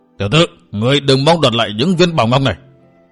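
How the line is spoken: Old man roaring. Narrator (Vietnamese): Lão trố mắt gầm lên

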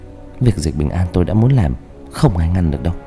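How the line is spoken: Cold muffled mutter. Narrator (Vietnamese): lạnh lùng lẩm bẩm đằng sau tấm vải

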